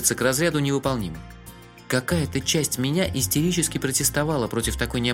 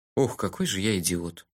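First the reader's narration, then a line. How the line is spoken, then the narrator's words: Stunned muttering. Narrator (Russian): ошеломленно пробормотал я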